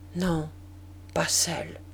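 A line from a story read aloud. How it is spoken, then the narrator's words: Soft voice. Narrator (French): dit-il d'une voix douce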